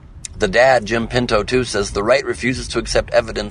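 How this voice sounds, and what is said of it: Usual voice. Nothing is said of it.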